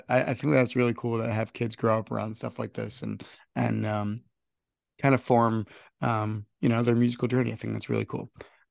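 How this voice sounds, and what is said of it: Hoarse voice. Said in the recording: “My allergies are killing me today. ... I sound hoarse. Allergies kicking my butt. This is the best my voice has sounded in a week”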